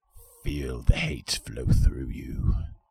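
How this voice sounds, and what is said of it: Bad Palpatine impression. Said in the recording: “terrible Palpatine impression. Terrible.”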